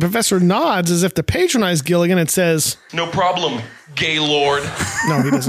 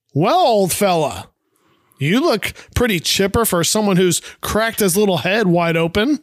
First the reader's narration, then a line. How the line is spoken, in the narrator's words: says very loudly